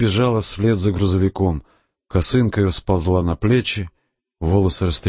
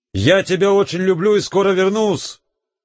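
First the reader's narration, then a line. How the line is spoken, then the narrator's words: Shouted while running. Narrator (Russian): крикнул, догоняя отходящую полуторку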